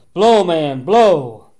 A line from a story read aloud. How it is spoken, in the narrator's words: yelling